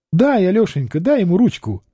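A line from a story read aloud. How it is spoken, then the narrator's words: Singsong, cheerful. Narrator (Russian): певуче весело сказала царевна Наталья Алексеевна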